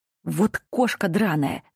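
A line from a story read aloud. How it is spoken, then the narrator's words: Hissing. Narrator (Russian): зашипел он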